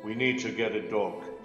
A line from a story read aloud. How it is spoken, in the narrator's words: said Grandfather